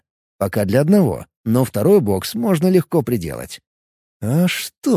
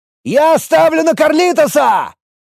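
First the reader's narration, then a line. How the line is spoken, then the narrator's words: Shouting. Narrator (Russian): закричал кто-то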